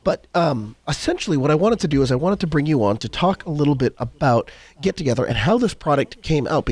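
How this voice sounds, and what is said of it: Crackly voice. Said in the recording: “apologize for my voice. It's a little bit crackly. I'm just getting over a bit of a cold.”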